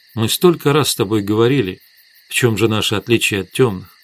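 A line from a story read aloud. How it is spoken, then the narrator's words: Quiet. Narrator (Russian): тихо сказала Светлана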